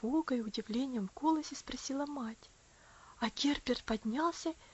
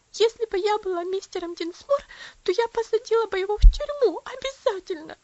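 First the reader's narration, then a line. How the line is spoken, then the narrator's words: Sobbing. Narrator (Russian): всхлипывала она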